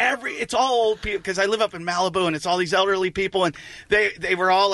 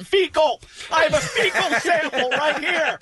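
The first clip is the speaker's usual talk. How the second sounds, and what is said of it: Nervous yelling. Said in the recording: “Did you start yelling? ... why are you screaming?”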